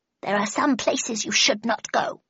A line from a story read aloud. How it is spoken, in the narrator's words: he muttered in a reproachful tone